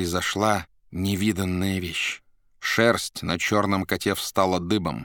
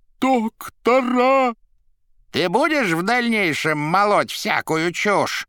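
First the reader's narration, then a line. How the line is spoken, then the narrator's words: Menacing question. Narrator (Russian): грозно спросил фагот у плачущей головы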